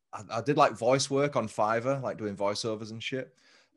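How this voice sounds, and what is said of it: English accent. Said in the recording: “what do you guys think of my English accent? ... that's my actual fucking voice ... it's not a good English accent”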